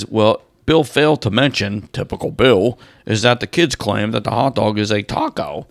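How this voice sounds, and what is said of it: Poor impression of a co-host. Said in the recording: “That's a terrible impression of Bill.”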